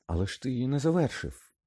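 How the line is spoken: Triumphant exclamation. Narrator (Ukrainian): переможно вигукнув Гаррі

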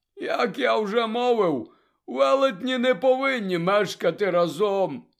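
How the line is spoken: Sad explanation. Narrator (Ukrainian): сумно пояснив Гегріт

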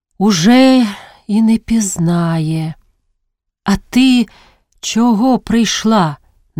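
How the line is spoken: Said with a sigh. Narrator (Ukrainian): зітхнувши, мовила

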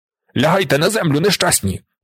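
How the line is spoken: Shouted while fleeing. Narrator (Ukrainian): утікаючи від стовпа, крикнув Зорбас

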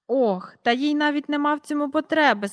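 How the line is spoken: Sighing. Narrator (Ukrainian): сказав містер Перук, зітхнувши

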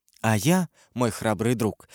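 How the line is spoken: Plain. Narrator (Russian): сказала королева

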